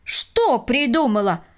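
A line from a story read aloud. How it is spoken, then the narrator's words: Exclaimed in unison. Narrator (Russian): воскликнули они в один голос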